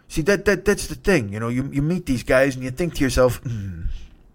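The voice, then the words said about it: Bad Robert De Niro impression. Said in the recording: “there's another line with De Niro ... I'm gonna try it again ... I apologize for the bad impression.”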